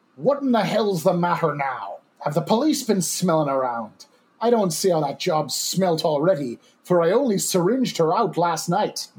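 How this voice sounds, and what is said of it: Coarse Irish accent. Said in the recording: “my best coarse Irish accent”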